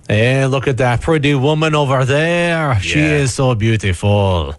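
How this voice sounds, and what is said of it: Fake French accent. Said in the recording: “I don't know why I'm speaking English in a French accent when I'm impersonating a Frenchman.”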